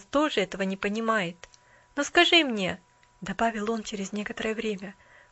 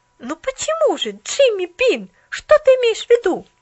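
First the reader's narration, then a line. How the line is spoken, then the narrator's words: Exclaiming. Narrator (Russian): воскликнула Поллианна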